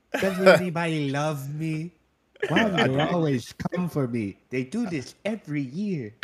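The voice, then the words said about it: Cartoon sloth character voice. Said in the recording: “What is that accent? ... Sid the Sloth ... Ice Age”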